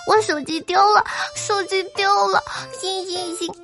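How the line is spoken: Crying. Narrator (Chinese): 这小姐姐……哭

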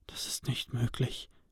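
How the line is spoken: Breathless stunned whisper. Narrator (German): hauchte Cody aus, der wie gelähmt dastand

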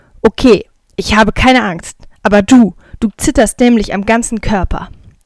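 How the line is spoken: Firm voice. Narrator (German): Ich sage mit fester Stimme

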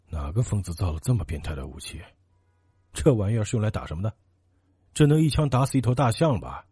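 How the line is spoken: Muttering. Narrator (Chinese): 云天海嘴里还不停的嘟囔着

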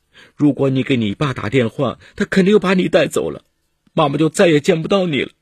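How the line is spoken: Tearful pleading. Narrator (Chinese): 陈莹却哭着哀求说

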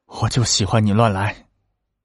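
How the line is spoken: Panting. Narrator (Chinese): 喘气道

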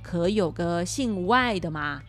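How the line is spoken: Plain. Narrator (Chinese): 娘娘说

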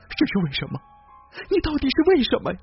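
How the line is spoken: Wailing sobbing question. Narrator (Chinese): 丑女人嚎啕大哭，一边哭一边问我

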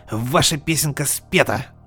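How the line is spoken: Snapping young man. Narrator (Russian): Огрызнулся парень

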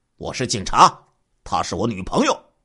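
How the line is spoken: Stern, suppressed anger. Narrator (Chinese): 李小平压抑着内心怒火，严肃的说

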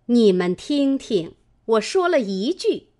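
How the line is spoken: Laughing. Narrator (Chinese): 李纨笑道

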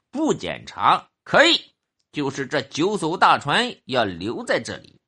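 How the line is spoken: Cold, angry voice. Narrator (Chinese): 周少长怒眉横目 冷冷的说

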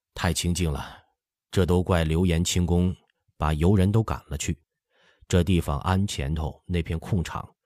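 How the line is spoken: Smiling. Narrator (Chinese): 范时杰笑说

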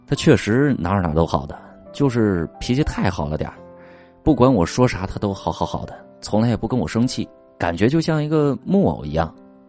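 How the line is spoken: Sighing. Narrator (Chinese): 我朋友叹了口气说

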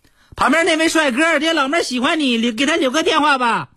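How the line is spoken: Shouting at full volume. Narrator (Chinese): 用尽了我最大的声音搁那喊

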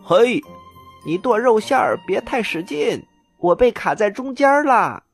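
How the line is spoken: Loud shout. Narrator (Chinese): 大拇哥大声的喊了起来

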